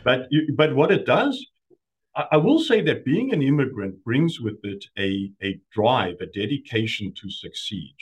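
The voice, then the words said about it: South African accent. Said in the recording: “former South Africans ... I guess you just don't lose the accent.”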